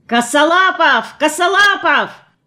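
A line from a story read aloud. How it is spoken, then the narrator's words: Young man yelling. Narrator (Russian): бежал какой-то парень и вопил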